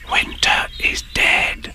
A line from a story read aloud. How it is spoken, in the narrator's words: whispered to her neighbor